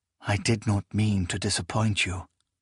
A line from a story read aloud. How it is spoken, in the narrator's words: Proyas murmured